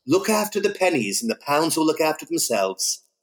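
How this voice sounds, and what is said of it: Posh British accent. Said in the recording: “you did that in the posh Paul Green British accent there. It's very good.”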